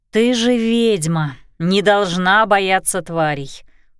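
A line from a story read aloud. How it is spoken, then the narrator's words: Grumbling. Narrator (Russian): проворчала Кристина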